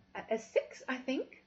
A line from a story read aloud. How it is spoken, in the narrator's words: I stammered